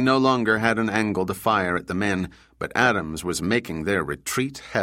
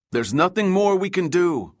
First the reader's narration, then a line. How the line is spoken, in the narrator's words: Juan shouted over the roar of wind filling his ears